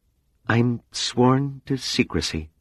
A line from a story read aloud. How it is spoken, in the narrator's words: she murmured